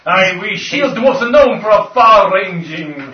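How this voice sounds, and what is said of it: Dreadful, not-quite-Scottish put-on accent. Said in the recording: “I'll keep speaking in an awful accent ... quite a geographically wide-ranging dreadful accent ... I think I remember that accent from Highlander ... Not quite Scottish ... Not quite Spanish”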